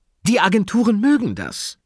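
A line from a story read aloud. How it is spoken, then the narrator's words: Excited. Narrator (German): fuhr Frau May aufgeregt fort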